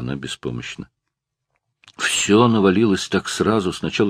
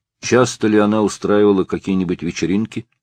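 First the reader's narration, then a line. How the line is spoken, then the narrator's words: Plain. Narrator (Russian): спросил Стоун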